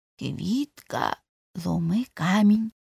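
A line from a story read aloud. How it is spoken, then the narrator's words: Whispered. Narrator (Ukrainian): прошепотів Цибулька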